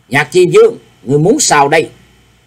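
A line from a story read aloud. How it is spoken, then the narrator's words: Loud shout. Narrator (Vietnamese): Đồng Diệu cũng quát lớn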